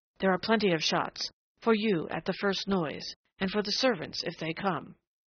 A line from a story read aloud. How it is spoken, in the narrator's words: she went on in that fierce undertone, and then, passionately